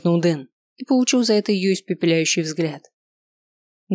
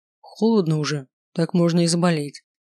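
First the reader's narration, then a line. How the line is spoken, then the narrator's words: Gloomy remark. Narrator (Russian): мрачно заметил Маркус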